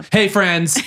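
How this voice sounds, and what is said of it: Loud, aggressive announcer voice. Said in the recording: “when you have your announcer voice on, it's so loud ... Ooh, aggressive.”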